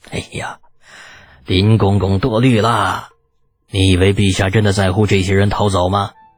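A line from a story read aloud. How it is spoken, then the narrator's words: Regretful smile. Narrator (Chinese): 封德明遗憾的笑着说道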